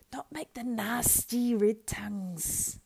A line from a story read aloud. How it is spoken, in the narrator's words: hissed Gollum